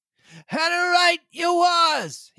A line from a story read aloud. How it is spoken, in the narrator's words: he cried